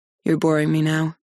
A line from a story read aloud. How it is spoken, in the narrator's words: he says coldly